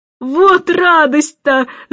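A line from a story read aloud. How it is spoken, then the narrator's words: Joyful yelling. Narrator (Russian): завопил мистер Бэнкс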